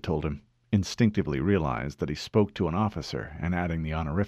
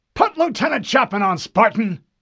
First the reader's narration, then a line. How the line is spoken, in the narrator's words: an irritated voice snapped